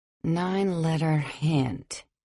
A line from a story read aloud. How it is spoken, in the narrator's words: I muttered